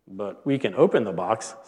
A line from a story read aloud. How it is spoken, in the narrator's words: said Toad